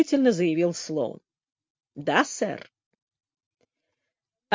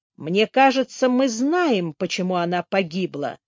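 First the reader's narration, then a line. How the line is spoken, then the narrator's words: Plain. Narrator (Russian): сказал Слоун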